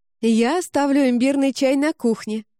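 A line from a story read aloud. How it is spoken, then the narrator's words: Hurried shout. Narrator (Russian): крикнула, в торопях вставая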